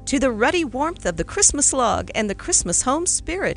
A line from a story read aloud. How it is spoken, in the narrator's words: he cried